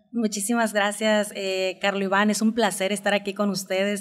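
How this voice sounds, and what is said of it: Strong northern Mexican accent. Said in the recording (Spanish): “tienes el acento más norteño que Corita”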